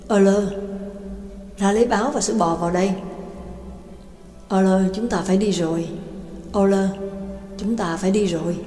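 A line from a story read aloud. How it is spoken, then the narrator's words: Smiling. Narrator (Vietnamese): mỉm cười nói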